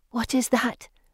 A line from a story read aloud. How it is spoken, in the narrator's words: Anne whispers